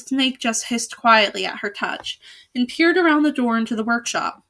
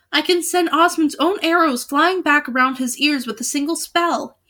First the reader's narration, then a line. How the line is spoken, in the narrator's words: he cried